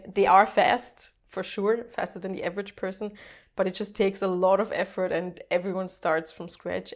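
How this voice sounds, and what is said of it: Strong German accent. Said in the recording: “I still have a strong German accent”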